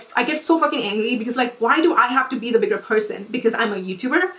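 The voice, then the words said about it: Shaking, heated angry voice. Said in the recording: “I'm getting like heated. Actually, my voice is shaking”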